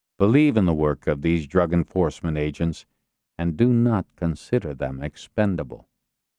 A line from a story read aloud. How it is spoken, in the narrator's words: Castillo said evenly